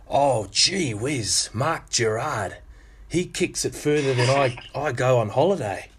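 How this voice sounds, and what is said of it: Put-on Australian accent. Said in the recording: “That's a lovely Aussie accent there, mate.”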